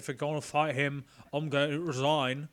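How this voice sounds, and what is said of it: Impression of a film character. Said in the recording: “That was a great impression.”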